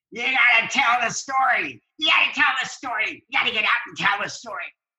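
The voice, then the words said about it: Imitates another person's voice. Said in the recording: “my Billy D impression”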